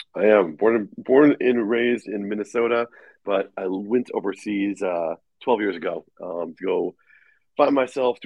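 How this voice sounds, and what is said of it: American accent. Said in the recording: “you have an American accent.”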